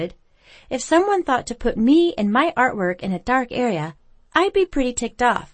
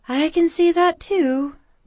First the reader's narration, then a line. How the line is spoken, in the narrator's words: Becca sighed